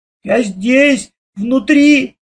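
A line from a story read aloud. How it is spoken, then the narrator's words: Shouted again. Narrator (Russian): опять закричал Лешка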